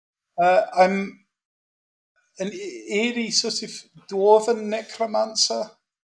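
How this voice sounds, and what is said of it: Nervous Scottish dwarf voice. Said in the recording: “a slightly different Scottish accent ... You sound quite nervous.”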